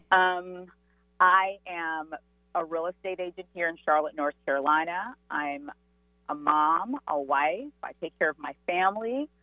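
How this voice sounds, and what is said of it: American accent. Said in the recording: “I sound like a lovely American”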